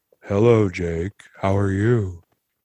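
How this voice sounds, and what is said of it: Imitates another person's voice. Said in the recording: “that is a good impression. ... it's more like you're matching the elocution than the perfect tone.”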